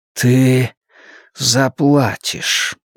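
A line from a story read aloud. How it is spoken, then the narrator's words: Quiet breathy. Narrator (Russian): негромко выдохнул он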